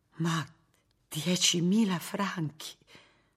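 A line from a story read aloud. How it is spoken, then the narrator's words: Slow whisper. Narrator (Italian): sussurrò lentamente Martina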